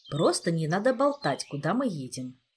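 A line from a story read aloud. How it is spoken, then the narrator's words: Calm, shrugging. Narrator (Russian): спокойно пожал плечами Джеффри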